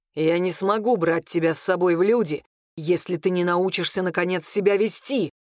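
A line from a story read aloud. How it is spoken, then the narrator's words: Hissing into ear. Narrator (Russian): шипел он ей на ухо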